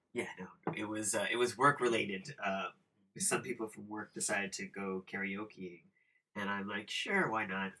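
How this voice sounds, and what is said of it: Raspy voice. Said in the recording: “your voice is kind of raspy today”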